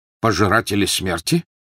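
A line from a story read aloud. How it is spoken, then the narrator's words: Sharp question. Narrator (Russian): резко переспросил Тед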